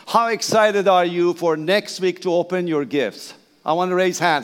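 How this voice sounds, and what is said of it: Persian-accented English. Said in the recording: “Please bear my accent, that's okay. I'm Persian.”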